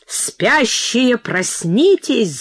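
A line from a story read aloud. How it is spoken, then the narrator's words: Angry shout. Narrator (Russian): злобно кричит фея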